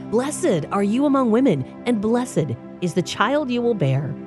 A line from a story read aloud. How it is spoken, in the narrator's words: In a loud voice, she exclaimed